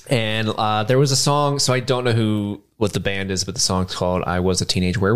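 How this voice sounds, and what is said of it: Usual voice. Nothing is said of it.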